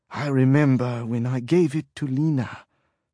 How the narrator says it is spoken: she said in her heavy French Creole accent

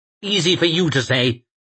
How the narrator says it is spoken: snapped Lawson

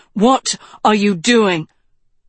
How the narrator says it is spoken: Tedros gasped from his guard's grip

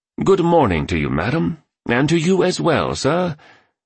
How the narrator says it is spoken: he enunciated in a British accent

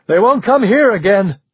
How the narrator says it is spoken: someone shouted

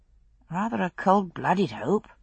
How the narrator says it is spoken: I said quietly

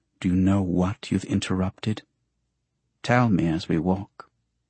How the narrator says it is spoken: She tamps her fury and mutters

